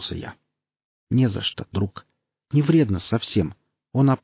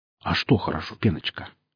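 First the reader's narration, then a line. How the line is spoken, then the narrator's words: Soft inquiry. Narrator (Russian): мягко поинтересовался проф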